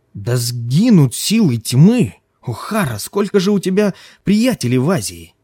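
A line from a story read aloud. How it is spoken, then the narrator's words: Exclaimed. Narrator (Russian): воскликнул он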